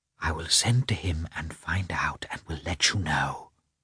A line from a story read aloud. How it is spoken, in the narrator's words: Betsy whispered to her